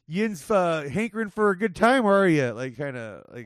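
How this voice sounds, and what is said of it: Put-on Pittsburgh Yinzer accent. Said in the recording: “a weird ass like Pennsylvania, like the Yinzer accent, like the Yinz.”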